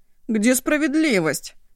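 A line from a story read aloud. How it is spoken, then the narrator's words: Sigh. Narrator (Russian): Вздохнул Ишу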